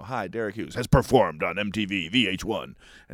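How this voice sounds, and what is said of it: Deep announcer voice. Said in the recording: “it's this deep, you know, announcer voice.”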